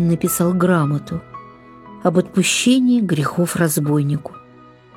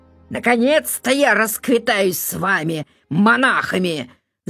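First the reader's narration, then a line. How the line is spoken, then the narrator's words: Shouting. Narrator (Russian): закричал он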